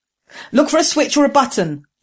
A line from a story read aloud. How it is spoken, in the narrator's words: Jessam shouted to Ging